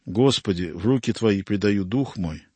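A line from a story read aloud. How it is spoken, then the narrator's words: Quiet dying prayer. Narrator (Russian): святая тихо скончалась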